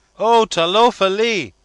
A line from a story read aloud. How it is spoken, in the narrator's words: they all cried